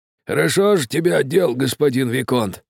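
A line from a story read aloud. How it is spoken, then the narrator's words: Old man grumbling. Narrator (Russian): ворчал старик-кучер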